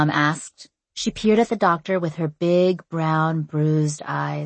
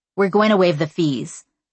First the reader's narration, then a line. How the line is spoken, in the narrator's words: the doctor blurted out